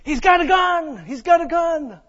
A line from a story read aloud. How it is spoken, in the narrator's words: was yelling and said